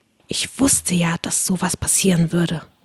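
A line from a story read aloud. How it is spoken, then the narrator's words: Whisper. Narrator (German): flüsterte mir Alice Wendlaken zu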